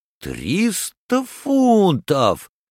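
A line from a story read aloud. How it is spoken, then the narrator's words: Exclaimed, stung by fine. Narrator (Russian): воскликнул Паспарту, который тронут был только пеней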